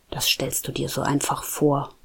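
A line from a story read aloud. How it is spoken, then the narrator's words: Murmured. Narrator (German): murmelte Nico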